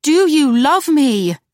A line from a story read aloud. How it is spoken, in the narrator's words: she practically cried